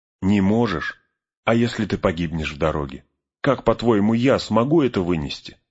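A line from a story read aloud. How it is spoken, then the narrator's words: Plain. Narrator (Russian): спросил его Фродо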